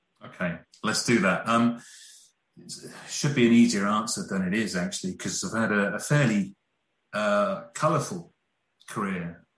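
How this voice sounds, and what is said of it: English regional British accent. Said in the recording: “Two Brits, a Bristolian and a guy from Birmingham ... the accents.”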